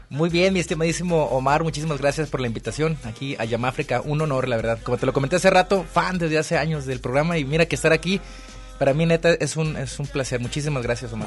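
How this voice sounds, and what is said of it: Radio announcer voice. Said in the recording (Spanish): “sacó la voz de locutor, porque estaba bien tranquilo. Estaba como dormido y de repente”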